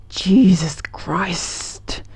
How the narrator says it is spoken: he hissed

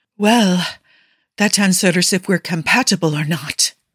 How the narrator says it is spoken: Nikki notes, a bit more breathlessly than he'd like

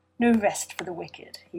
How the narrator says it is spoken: he sighed self-indulgently

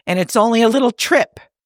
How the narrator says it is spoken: Pike says sharply

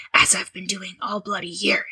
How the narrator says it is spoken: he muttered

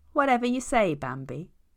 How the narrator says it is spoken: chuckles

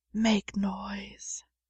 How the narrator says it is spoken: John whispered

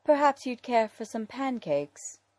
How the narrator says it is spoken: Dick sighs, because there's even less use fighting Alfred's attempts to feed him up

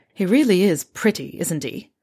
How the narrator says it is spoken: Fred grumbles

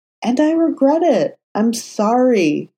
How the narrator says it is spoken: Matt said, so earnestly

